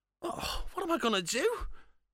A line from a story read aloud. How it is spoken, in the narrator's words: He whimpered